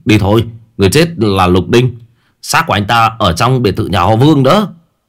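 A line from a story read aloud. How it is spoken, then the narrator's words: Loud call. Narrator (Vietnamese): La Hổ lớn tiếng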